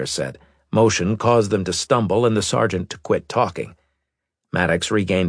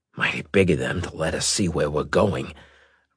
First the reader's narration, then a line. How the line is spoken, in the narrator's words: Riker muttered